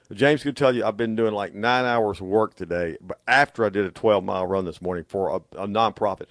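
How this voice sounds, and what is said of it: Hoarse voice. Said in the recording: “That's why I'm so hoarse today.”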